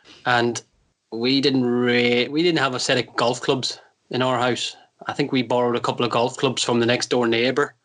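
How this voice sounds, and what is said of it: Soft Northern Irish accent. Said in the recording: “grew up in Northern Ireland, as you might have guessed by my very soft accent.”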